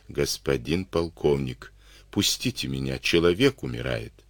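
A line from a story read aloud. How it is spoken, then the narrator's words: Very quiet, cautious pleading. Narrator (Russian): Отец Герасим, понимая, что с пьяным лучше не связываться, очень тихо просил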